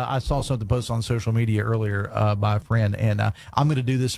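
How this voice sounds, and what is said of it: Usual voice. Nothing is said of it.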